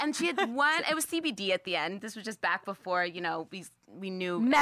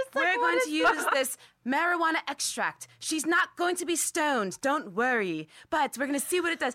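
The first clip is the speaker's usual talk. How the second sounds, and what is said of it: Poor impression of Sanjay Gupta. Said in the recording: “I'm doing a terrible accent. Sorry, Sanjay Gupta.”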